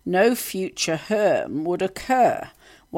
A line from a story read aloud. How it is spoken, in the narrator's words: Kamala slurring her words, saying